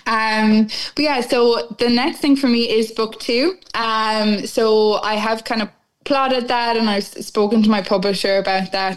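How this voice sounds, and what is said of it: Irish accent. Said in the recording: “they love my accent,... They're calling me Miss Ireland”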